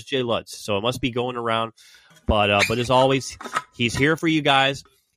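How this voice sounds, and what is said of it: Congested, funny-sounding voice. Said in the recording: “I have a little bit of cold. I'm sorry if my voice sounds funny”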